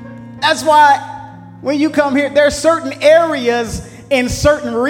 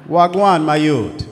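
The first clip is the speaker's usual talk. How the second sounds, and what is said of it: Put-on Jamaican accent. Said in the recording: “that Jamaican accent”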